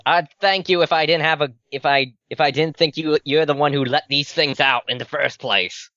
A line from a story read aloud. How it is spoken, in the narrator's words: Roland yells